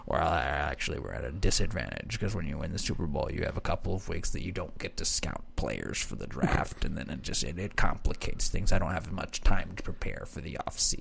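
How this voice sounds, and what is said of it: Imitates another person's voice. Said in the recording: “good Bill Belichick impression”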